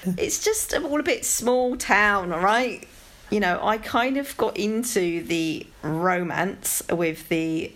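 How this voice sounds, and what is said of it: London accent. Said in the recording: “it's my London accent.”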